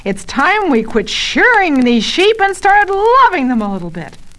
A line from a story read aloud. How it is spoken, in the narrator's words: Barton slams his hand down on the desk and yells